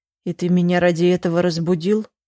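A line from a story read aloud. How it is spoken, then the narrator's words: Grumbling. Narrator (Russian): проворчал Глеб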